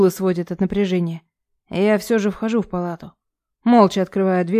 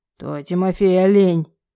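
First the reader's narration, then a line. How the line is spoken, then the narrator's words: Growl then cough. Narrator (Russian): рыкнул батя и закашлялся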